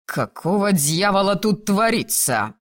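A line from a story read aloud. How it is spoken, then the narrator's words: Roaring familiar voice. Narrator (Russian): проревел знакомый голос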